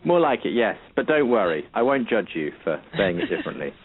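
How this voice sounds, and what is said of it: British accent. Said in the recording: “accents from across the pond ... speaking with a British accent”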